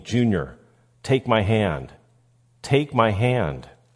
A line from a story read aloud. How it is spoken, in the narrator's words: his father, who reaches out pleading